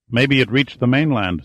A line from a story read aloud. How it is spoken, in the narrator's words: said Giordino